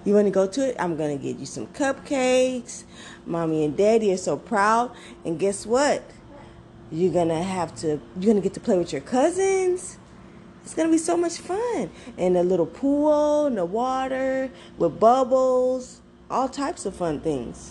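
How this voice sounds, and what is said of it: Affectionate mommy voice to child. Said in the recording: “that was me in my mommy voice talking to my son”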